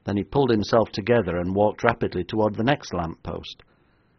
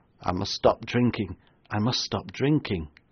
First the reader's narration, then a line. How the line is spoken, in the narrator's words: The major staggered back against the lamppost and muttered